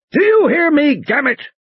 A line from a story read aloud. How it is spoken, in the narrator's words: Muldoon bellowed